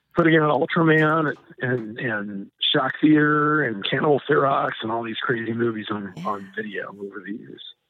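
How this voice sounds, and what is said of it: Slightly hoarse voice. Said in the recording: “I'm going a little bit hoarse. It's the emotions”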